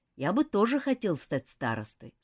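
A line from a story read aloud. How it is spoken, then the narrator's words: Plain. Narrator (Russian): сказал Роберт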